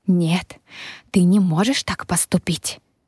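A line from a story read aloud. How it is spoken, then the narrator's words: Vicious growl. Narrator (Russian): Злобно зарычала Камелия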